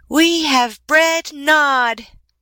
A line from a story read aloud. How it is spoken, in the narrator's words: they cried